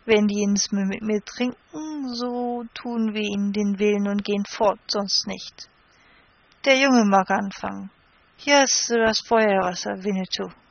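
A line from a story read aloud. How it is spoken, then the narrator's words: Slurred drunken speech. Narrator (German): sagte mit lallender Zunge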